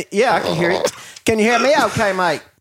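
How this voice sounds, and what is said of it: Put-on Australian accent. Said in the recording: “Is that your Australian accent?... Australian's easier to do”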